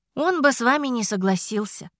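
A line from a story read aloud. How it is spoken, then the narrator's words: Sigh. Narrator (Russian): вздохнула я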